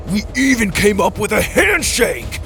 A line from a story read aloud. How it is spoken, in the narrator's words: Dallas roared